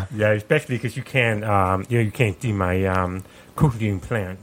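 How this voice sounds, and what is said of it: Deaf accent. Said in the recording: “my most obvious trait, my deaf accent ... why you sound so different? ... what's that accent?”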